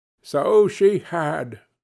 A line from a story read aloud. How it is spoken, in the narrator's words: cried Scrooge